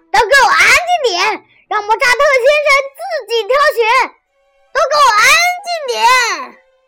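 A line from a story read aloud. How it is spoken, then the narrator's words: Anxious shout. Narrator (Chinese): 卡门急了，冲着大家喊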